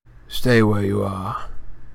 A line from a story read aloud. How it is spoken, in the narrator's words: he said in the same hoarse voice